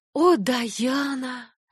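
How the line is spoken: Whispered. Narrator (Russian): прошептала Энни

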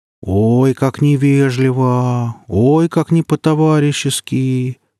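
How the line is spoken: Drawling, ironic. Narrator (Russian): протянул Гриф с иронией

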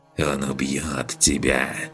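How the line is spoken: Snake whispering. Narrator (Russian): прошептала змея

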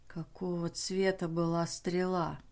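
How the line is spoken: Whispered question. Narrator (Russian): шепотом спросил Эйкер

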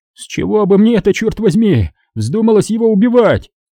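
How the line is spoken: Shout. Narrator (Russian): Майер закричал

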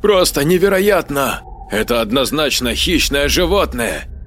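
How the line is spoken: Exclamation. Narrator (Russian): воскликнул Жорж

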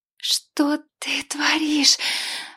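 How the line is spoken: Angry hiss. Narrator (Russian): Она гневно шипела

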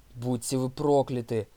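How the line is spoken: Shouted curse. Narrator (Russian): выкрикнул Торн

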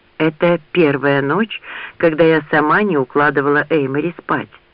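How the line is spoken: Plain. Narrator (Russian): сказала Лианна

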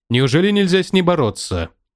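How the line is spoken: Muffled through filter. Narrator (Russian): Его голос звучал глухо из-за противопылевого фильтра

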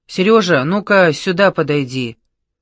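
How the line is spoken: Menacing boom. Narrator (Russian): грозно прогудел его голос

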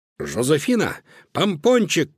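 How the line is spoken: Shout. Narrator (Russian): крикнул Луноброд

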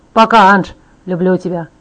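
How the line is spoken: Shouting. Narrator (Russian): прокричал он

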